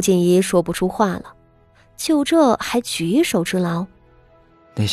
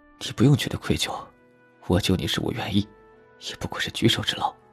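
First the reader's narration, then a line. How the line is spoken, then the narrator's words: Soft gentle. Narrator (Chinese): 他轻声解释道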